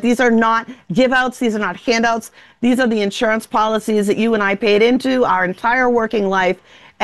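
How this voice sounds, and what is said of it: Noticeable regional accent. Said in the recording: “You get angry, your accent comes out more”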